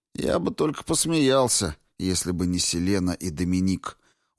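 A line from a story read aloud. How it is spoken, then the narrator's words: Grumbling. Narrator (Russian): буркнул Энцо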